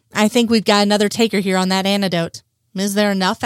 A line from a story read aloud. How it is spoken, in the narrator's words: asks Frohickey